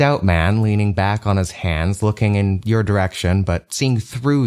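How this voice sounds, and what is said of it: Usual voice. Nothing is said of it.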